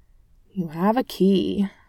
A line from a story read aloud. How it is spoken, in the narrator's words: Clint grumbled